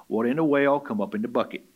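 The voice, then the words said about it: Imitates grandfather's way of speaking. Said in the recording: “in Hayward Watts, my granddad style”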